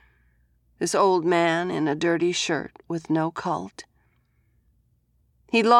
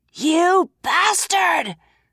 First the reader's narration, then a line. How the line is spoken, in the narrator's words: Scarlet screamed